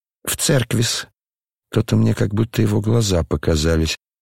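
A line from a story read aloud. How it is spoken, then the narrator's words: Embarrassed mumble. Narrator (Russian): пробормотал князь в смущении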